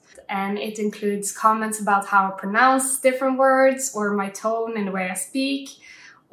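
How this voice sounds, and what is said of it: Norwegian accent in English. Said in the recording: “I get hassled a lot for my accent ... I'm from Norway”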